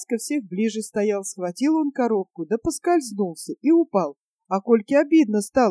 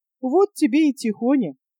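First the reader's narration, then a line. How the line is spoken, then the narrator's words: Laughing. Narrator (Russian): Посмеялся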